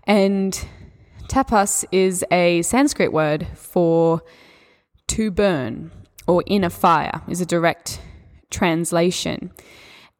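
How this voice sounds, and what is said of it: Australian accent. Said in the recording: “my Australian accent”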